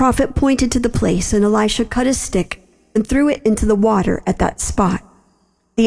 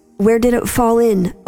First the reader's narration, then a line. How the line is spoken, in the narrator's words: Elisha asked